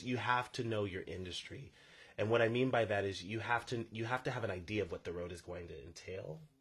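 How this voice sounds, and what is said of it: Noticeable accent, unusual vowel sounds. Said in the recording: “Did you always have this accent? ... Did no one else get deering? ... I was like trying to figure out what you were saying. I was like, deering. During.”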